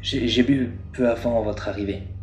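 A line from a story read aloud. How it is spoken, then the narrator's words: Plain. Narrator (French): répondit le gérant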